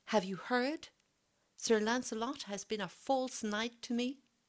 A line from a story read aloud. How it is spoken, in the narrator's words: cried